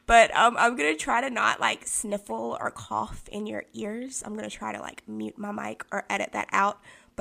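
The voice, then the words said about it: Raspy, sick-sounding voice. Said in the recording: “you can tell that there's something going on with my voice. I'm sick. I have bronchitis... I'm expecting my voice to probably be raspy”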